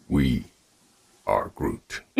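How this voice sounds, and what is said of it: Groot character voice impression. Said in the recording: “Do your best I Am Groot impression.”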